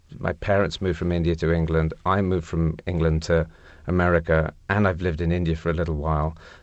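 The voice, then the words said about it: English accent. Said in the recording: “I'm English ... the accent doesn't fit the way that I look”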